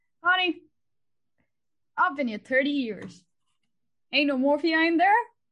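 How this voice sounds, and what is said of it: Put-on Alabama accent. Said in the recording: “my shallow attempt at an Alabama accent”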